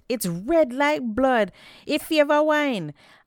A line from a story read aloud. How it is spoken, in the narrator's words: one man exclaimed